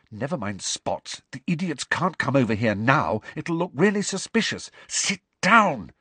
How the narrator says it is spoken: she mouthed to Ernie and Hannah

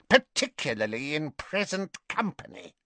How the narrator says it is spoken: snarled Bellatrix

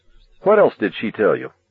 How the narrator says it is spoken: Arnie asked sharply

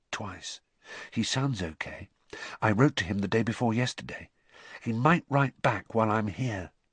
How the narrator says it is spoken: said Harry softly

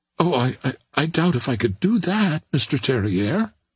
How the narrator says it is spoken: exclaimed the girl

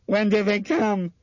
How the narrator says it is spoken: she asked him hysterically

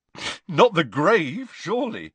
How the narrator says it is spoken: said Ron with a snort

